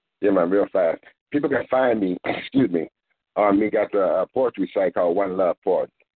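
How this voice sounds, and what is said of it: Speaks with an accent. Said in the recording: “your accent”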